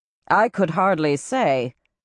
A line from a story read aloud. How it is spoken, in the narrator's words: replied Savardin coolly